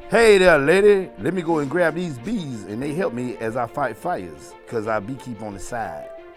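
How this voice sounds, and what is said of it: Put-on Black American voice. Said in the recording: “I'm going to do my black voice ... That sounded real ... You sound just like a black guy ... That sounded like a black person”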